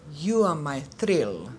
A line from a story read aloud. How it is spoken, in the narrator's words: said Mevla